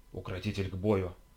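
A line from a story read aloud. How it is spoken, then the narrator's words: Whispered. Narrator (Russian): прошептала Карина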